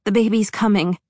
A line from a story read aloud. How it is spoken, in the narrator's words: June gasped